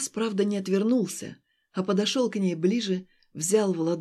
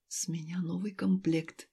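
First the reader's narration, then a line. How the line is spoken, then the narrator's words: Whisper. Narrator (Russian): прошептал он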